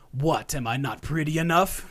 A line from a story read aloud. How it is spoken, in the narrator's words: She exclaimed